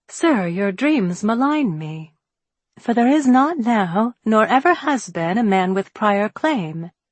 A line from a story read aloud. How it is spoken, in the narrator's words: But fearing it might come between us, I answered playfully